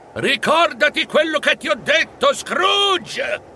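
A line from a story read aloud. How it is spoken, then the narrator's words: Hasty shout. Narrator (Italian): fece in tempo a gridare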